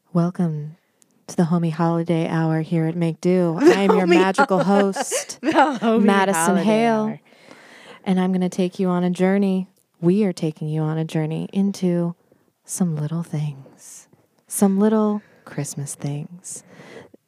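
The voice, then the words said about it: Deep, intimate late-night radio DJ voice. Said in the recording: “That's my best impression of like a late night disc jockey ... You just got to get real deep ... act like you don't want everyone to hear you. Just the person right next to you.”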